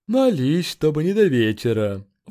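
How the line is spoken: Sighing. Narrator (Russian): вздохнул Грант

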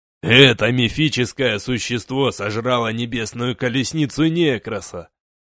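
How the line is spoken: Snorting. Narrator (Russian): хмыкнул Гронк

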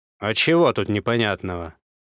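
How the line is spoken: Growl. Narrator (Russian): рыкнул Козлов

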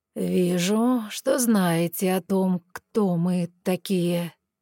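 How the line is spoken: Ironic drawl. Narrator (Russian): иронично протянул Вилель

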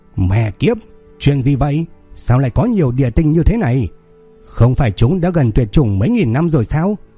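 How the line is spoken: Old man scolding loudly. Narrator (Vietnamese): Ông lão sắc mặt thay đổi, lớn tiếng mắng

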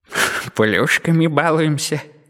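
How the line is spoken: Playful chuckling inner voice. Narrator (Russian): игриво хохотнул внутренний голос

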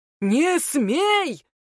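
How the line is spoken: Watchman's bark. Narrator (Russian): гаркнул сторож

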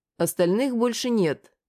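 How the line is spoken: Calm. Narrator (Russian): сказал я спокойно

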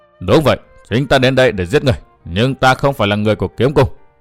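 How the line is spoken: Cold. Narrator (Vietnamese): Hắn bèn lạnh lùng nói

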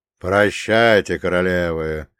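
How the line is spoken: Growl. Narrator (Russian): прорычал Рон

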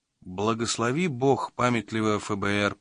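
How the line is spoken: Mutter. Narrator (Russian): пробормотал Магоцци

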